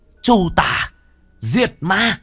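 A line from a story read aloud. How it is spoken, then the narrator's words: Bird's battle cry. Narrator (Vietnamese): Con lam điểu hét lên một tiếng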